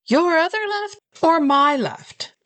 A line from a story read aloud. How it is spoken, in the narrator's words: I shouted back